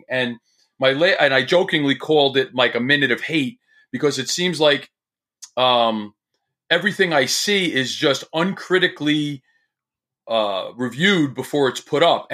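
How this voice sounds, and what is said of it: New Jersey accent. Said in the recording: “New Jersey accent”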